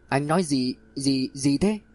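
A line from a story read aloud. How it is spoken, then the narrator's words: Stammering. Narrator (Vietnamese): lắp bắp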